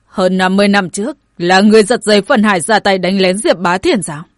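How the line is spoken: Stern interrogation. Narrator (Vietnamese): Đại Hạ Vương nghiêm nghị chất vấn

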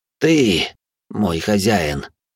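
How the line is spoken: Forced out. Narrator (Russian): выдавил он

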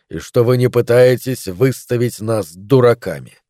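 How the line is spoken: Hissing. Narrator (Russian): прошипел он

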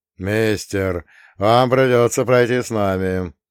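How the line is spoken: Polite low rumble. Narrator (Russian): вежливо прогудел лоб с кудрями радикально черного цвета

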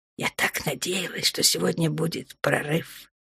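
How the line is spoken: Whisper. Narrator (Russian): прошептала она

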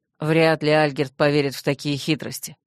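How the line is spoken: Gloomy mutter. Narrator (Russian): мрачно буркнул Рент

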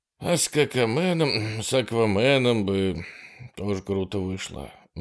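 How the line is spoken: Sighed. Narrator (Russian): вздохнул Хэдли

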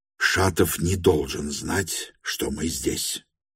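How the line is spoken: Stern whisper. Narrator (Russian): строго прошептал Петр Степанович Липутину

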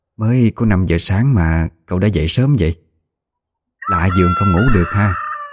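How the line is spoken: Quiet question. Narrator (Vietnamese): bà mới nhỏ giọng hỏi

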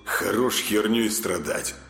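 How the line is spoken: Through gritted teeth. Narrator (Russian): процедил сквозь зубы Артем

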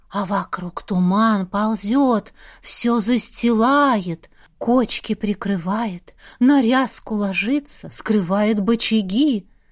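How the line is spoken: Gloomy drawl. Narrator (Russian): мрачным голосом протянула Аврора

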